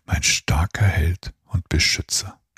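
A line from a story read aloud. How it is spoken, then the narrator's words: Whispered. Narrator (German): flüsterte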